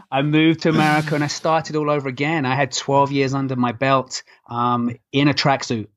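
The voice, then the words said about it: Non-North American accent. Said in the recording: “as you can tell from my accent. I'm not from North America”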